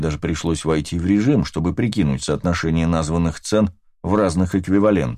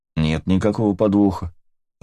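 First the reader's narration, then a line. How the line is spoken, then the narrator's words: Calm reply. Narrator (Russian): ответил я, спокойно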